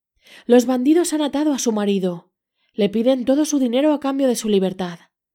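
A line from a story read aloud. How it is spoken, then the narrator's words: Shouted. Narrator (Spanish): Pulgarcito gritó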